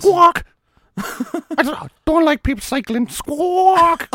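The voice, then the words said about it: Imitates a squawking bird. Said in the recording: “Why did you say squawk? In a birdie way... My impression isn't that great.”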